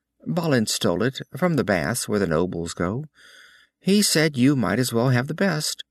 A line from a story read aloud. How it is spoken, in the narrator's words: she laughed